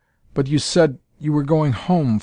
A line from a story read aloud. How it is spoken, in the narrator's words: faltered Althora